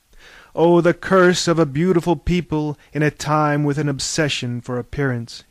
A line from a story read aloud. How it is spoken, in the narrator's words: cried